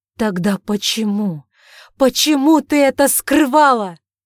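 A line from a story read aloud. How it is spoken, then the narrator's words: Shouting. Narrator (Russian): закричал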